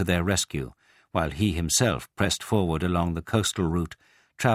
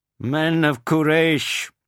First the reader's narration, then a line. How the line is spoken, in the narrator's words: he shouted